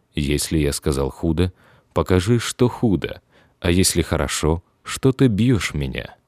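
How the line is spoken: Calm. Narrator (Russian): Христос спокойно отвечал

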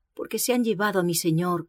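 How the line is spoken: Plain. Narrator (Spanish): contestó ella

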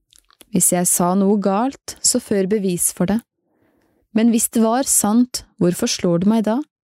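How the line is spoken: Answered calmly. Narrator (Norwegian): Rolig svarte Jesus

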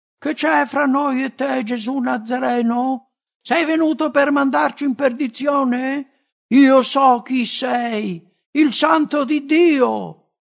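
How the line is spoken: Possessed man shouting. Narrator (Italian): un uomo posseduto da uno spirito immondo, il quale prese a gridare

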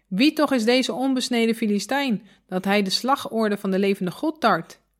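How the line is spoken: Ashamed, indignant exclamation. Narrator (Dutch): Beschaamd en verontwaardigd riep David uit

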